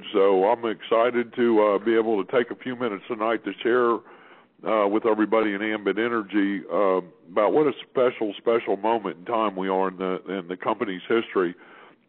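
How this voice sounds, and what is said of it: Hoarse, strained voice. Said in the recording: “I've got a little touch of laryngitis, and my voice isn't doing so great”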